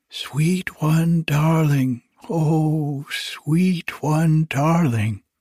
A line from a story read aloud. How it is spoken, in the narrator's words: they cried softly